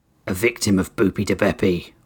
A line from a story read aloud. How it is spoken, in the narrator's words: Oryx growled